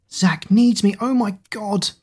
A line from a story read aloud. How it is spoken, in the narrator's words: Kira gasped, open mouthed